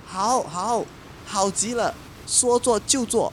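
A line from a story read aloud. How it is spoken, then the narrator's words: Happy shouting. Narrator (Chinese): 太阳兄弟都高兴地 大叫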